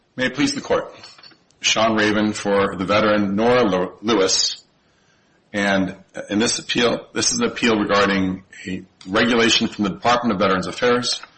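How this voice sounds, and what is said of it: Speaker with an impaired voice. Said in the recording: “I apologize for my voice this morning. ... Some of us have the same problem.”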